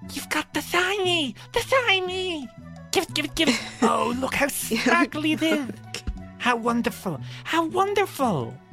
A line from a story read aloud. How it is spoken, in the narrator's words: the brownie, who kind of squeals in delight fury, and says